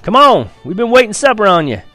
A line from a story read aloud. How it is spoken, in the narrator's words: Papa hollered from the porch